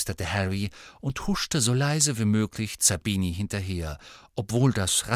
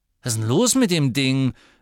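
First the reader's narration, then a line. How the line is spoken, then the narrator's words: Angry. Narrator (German): sagte Zabini wütend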